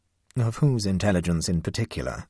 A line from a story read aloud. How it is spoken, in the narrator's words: asked Tobermory coldly